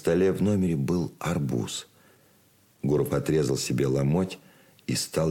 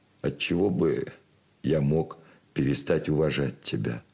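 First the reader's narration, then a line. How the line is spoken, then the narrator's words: Plain. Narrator (Russian): спросил Гуров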